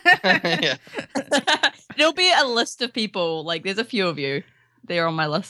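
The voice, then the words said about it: Australian accent. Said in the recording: “Listen for the Australian accent.”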